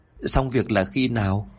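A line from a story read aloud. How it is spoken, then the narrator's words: Tearful, choked voice. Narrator (Vietnamese): Người con gái rừng rừng nước mắt, giọng nghẹn ngào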